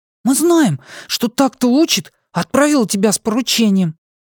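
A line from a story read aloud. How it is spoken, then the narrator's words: Joyful blurt. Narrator (Russian): радостно выпалил Бин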